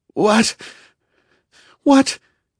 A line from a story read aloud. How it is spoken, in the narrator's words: gasped Hoshino